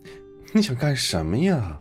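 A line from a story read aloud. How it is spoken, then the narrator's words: Helpless sigh. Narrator (Chinese): 唐悠悠无奈叹气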